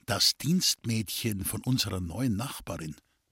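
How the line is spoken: Whispering. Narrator (German): Kurt Schrems flüsterte seinem Bruder zu

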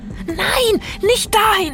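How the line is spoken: Shouting. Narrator (German): schrie Mattes

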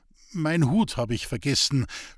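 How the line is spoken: Stammering in strange voice. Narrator (German): stotterte Roman mit einer Stimme, die einem anderen zu gehören schien

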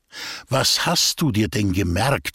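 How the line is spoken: Plain question. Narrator (German): fragte Eugen Wühl

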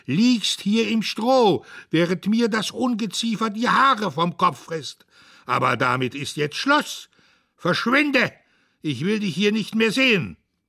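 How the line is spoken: Screamed. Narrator (German): schrie er

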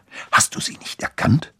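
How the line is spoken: Whispered back. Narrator (German): flüsterte Annabelle zurück

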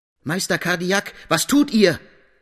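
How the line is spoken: Calling loudly. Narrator (German): rufe laut

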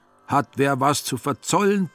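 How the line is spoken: Horrified roar, man. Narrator (German): brüllte er entsetzt

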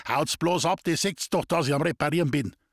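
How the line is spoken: Angry shout. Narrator (German): zornig schrie er die Leute an

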